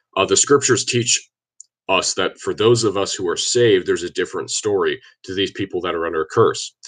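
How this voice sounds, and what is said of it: Congested, slightly off voice. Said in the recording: “my voice sounds a little bit off, it's because I've had a sinus infection for about the last week or so ... if I start to choke”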